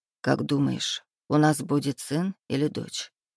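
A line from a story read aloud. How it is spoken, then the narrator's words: Quiet question. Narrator (Russian): тихо спросил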